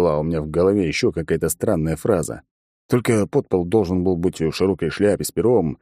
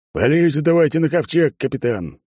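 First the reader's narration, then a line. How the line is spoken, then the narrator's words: Amused snort. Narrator (Russian): Светоч хмыкнул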